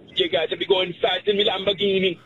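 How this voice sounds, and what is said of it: Good put-on Jamaican accent. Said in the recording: “A Jamaican accent. ... That was good. Perfect.”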